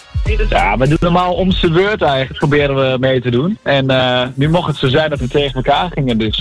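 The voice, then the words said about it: Regional Dutch accent from Overijssel. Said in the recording (Dutch): “Heb jij een heerlijk accent, joh. Kom jij zelf uit Gelderland? ... uit Overijssel”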